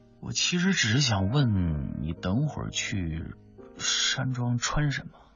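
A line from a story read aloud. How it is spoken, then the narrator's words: Hushed, aggrieved. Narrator (Chinese): 两个人这么压低声音斗嘴，他一脸委屈地说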